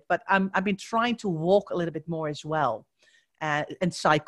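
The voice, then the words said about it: Dutch accent. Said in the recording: “if you were wondering where my accent is from, I am Dutch”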